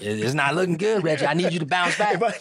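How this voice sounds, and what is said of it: Imitates another person's accented voice. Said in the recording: “Can I interpret that accent and figure out who it was?”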